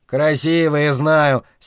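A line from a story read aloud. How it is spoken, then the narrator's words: Angry interruption. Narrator (Russian): сердито перебил я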